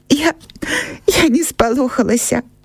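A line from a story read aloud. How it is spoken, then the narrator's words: Sobbing reply. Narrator (Belarusian): усхліпваючы адказала Аксана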